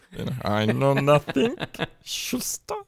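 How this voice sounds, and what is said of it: Mock German war-film accent. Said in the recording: “doing a Schultz impersonation ... watched too many German war films”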